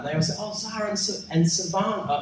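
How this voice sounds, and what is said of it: Imitated New Zealand accent. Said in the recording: “They have that different sound, right? ... I love the Kiwi accent.”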